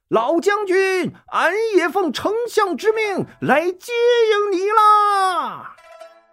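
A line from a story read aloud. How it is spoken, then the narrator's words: Shouting while running. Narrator (Chinese): 那人一边跑也一边大叫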